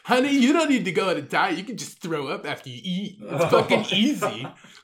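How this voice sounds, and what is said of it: Sorority girl voice, somewhat manly. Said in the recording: “good sorority girl impression ... It's a little more manlier than I'd like.”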